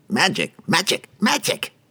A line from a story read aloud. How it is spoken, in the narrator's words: His little goblin assistant ... squealing